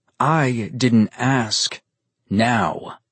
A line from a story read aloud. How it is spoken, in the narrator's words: Nero said coldly